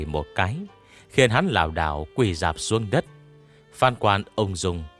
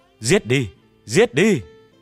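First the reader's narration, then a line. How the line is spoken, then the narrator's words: Crowd shouting in unison. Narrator (Vietnamese): Dân chúng đồng loạt hét lớn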